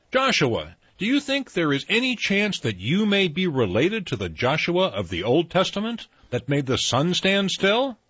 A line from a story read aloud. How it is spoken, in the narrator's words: The judge called out to him